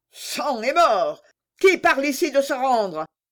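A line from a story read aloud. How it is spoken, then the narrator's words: Terrible voice. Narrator (French): reprit le prince Azor d'une voix terrible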